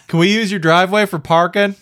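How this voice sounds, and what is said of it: Put-on Southern US accent. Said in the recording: “I don't know why I went with a Southern accent”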